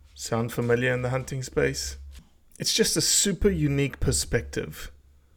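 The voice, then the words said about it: South African accent. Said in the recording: “people accuse me when they hear my accent ... I'm from South Africa ... You didn't sound like you're from Mississippi”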